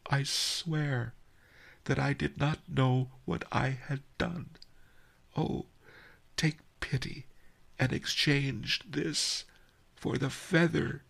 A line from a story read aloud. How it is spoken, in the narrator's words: sobbed